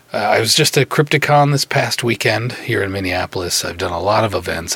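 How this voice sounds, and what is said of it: Slightly hoarse voice. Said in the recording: “if you can't hear it, my voice, it's a little hoarse from the... I've done a lot of talking, and I'm kind of paying the price a little bit for it.”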